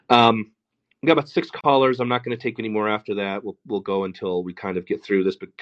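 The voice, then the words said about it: Tired, fading voice. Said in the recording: “my voice is running out”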